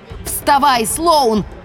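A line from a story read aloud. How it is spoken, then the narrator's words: Yelled. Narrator (Russian): заорала я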